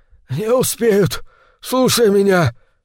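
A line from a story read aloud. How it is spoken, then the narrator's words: Hoarse wheeze. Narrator (Russian): прохрипел он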